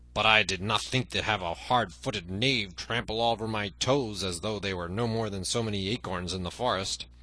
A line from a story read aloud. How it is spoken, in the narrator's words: grumbled the other